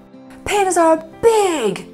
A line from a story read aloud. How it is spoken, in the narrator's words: shouted Pang